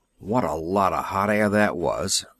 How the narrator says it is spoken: one grumbled

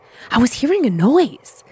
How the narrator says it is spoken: she said in a panicked voice

